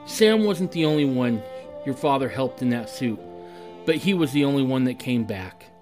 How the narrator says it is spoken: whispered

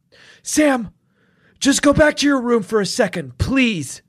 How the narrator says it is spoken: I said urgently

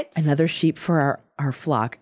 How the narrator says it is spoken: answered Brake solemnly

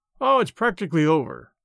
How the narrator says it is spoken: lied, cheerfully

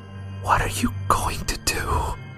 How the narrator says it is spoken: Eddie whispered

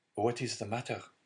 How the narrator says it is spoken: said Dante timidly

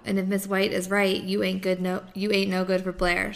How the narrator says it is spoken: she says, chuckling

